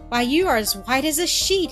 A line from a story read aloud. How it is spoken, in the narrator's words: he exclaimed